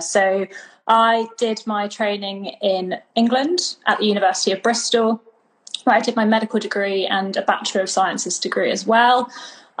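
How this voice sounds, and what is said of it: British accent. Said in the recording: “The accent didn't give me away. I'm British.”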